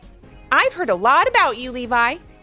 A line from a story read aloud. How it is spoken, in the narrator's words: Cynthia called out from across the gym